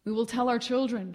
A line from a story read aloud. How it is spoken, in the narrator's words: she cried